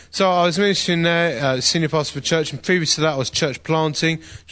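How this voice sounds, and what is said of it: Essex English accent. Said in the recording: “a church in Essex, as you can tell from my accent”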